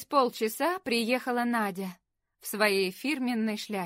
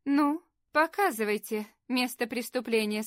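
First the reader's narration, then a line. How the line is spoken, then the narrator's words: Plain. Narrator (Russian): сказала она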